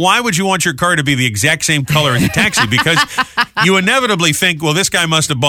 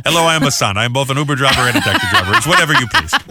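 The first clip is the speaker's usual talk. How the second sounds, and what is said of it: Put-on Uber driver voice. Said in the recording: “That was my impression of an Uber driver. ... It was pretty good.”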